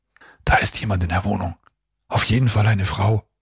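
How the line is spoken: Whispered in ear. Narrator (German): flüsterte er Simon ins Ohr

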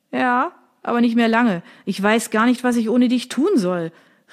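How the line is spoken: Calling after someone. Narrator (German): rief ihr Sergio nach

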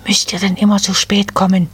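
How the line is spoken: Irritated hiss. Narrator (German): zischte die Nadelfee die Wipfelelfen an

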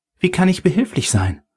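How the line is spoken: Excited female question. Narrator (German): fragte sie aufgeregt

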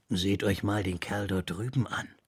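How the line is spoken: Soft speech. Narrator (German): sagte leise

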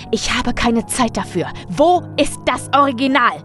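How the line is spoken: Bellowing. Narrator (German): brüllte

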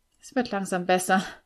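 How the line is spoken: Groan. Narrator (German): stöhnte ich

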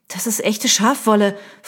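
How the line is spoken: Hissed angrily. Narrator (German): fauchte sie

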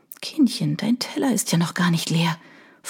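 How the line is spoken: Whisper in ear. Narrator (German): flüstert mir Oana ins Ohr

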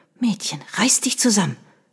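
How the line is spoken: Hiss. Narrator (German): zischte

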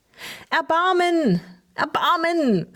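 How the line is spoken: Cried out. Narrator (German): rief Tinus

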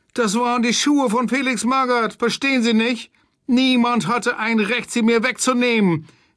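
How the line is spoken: Tearful whining. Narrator (German): jammerte er mit weinerlicher Stimme

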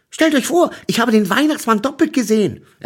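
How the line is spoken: Excited telling. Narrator (German): erzählte aufgeregt

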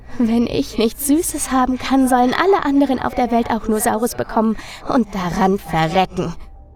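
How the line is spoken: Giggling girl. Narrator (German): Das Mädchen kicherte wieder und antwortete

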